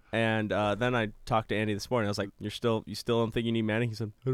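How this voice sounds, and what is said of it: Usual voice. Nothing is said of it.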